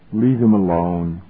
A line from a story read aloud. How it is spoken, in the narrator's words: grunted Mester